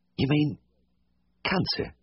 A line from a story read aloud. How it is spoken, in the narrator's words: the little man said faintly